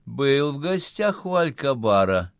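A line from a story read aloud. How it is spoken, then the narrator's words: Honeyed question. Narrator (Russian): медовым голосом спросил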